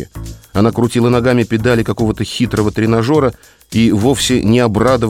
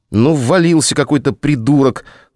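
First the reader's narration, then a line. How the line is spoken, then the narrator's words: Speaking through gritted teeth. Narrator (Russian): цедила сквозь зубы Вероника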